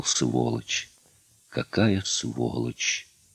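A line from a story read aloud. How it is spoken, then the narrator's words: Whispering. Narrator (Russian): Климов шептал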